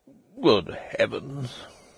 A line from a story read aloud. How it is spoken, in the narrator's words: murmured the doctor again